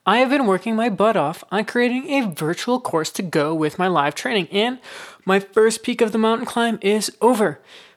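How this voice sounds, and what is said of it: Excited, energetic voice. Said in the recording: “I am so excited, as you can tell in my voice.”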